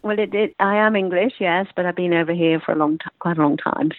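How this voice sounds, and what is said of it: Slight British accent. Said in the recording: “You sound like you have a little bit of a British accent”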